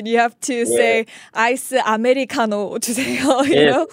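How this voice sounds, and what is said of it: Put-on Korean accent. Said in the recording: “you have to say it in a Korean accent.”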